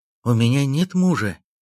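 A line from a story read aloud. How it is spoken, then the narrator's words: Slightly frightened, broken French. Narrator (Russian): немного испуганным голосом ответила женщина на плохом французском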